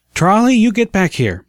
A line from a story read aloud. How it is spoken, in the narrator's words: the mother called out